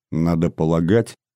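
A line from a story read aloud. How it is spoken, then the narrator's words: Quiet. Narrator (Russian): негромко продолжал Брашко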